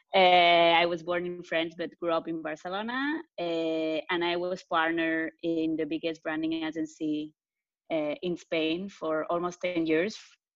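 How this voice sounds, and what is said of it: Spanish accent. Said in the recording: “I'm originally Spanish, for the ones that didn't get the accent yet”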